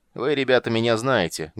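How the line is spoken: Loud announcement. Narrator (Russian): громко объявил главарь

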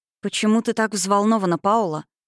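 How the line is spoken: Gentle question. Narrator (Russian): мягко спросила она

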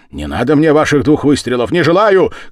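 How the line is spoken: Childish shouting. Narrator (Russian): кричал я, как ребенок

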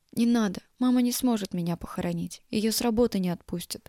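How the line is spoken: Whisper. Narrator (Russian): прошептала

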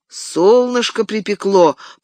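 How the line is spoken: Muttered under breath. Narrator (Russian): проворчал он под нос

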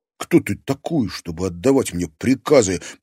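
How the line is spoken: Muttered through clenched teeth. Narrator (Russian): процедил вдруг Клим

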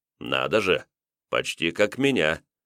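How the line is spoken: Merchant chuckling. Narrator (Russian): Хохотнув, купец

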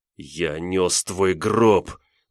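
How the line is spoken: Spiteful, breathless, through teeth. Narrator (Russian): злобно процедил он, когда сумел снова сделать вздох

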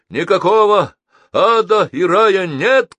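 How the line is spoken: Shout. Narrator (Russian): крикнул Геннадий

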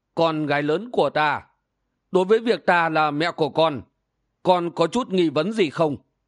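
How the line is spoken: Old woman sighing. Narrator (Vietnamese): bà lão quái nhân thở dài nói

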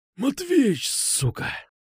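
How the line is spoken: Exhaled. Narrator (Russian): Выдохнул

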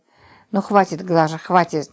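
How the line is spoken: Angry. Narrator (Russian): сердито вымолвил он

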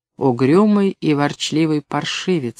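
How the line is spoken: Soft. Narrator (Russian): сказала она мягко

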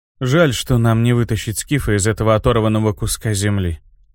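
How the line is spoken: Sighing. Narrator (Russian): вздохнул инквизитор

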